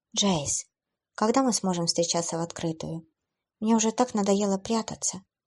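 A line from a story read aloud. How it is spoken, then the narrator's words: Quiet. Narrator (Russian): тихо сказала Джейн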